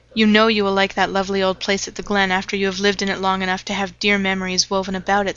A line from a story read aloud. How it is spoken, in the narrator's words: said Leslie